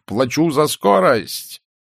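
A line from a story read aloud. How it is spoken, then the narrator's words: Shouting. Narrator (Russian): крикнув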